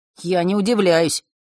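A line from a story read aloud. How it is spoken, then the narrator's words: Snorting. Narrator (Russian): хмыкнул Ник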